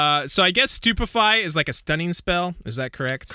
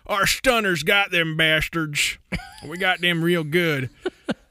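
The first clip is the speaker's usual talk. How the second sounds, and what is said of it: Southern hick voice. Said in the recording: “like a hick, like a southern hick”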